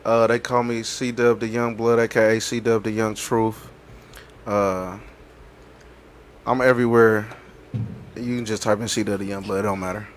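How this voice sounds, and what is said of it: Put-on sexy smooth voice. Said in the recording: “put on this sexy voice ... This nigga turned into Morris Chestnut”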